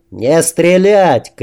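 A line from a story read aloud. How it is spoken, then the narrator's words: Shout. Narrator (Russian): крикнул Макс Дине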